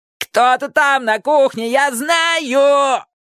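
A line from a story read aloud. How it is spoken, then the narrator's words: Howling wail. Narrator (Russian): Джонни взвыл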